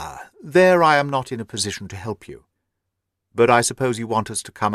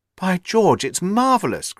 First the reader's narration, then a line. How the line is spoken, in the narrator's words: cried Hopkins, in an ecstasy of admiration